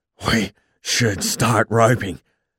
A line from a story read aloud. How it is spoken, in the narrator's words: he said, he was panting too